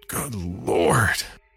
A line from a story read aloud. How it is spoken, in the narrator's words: he croaked